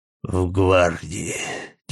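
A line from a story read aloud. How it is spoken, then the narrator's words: Dry tone, old man. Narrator (Russian): тем же сухим тоном ответил дед Гриша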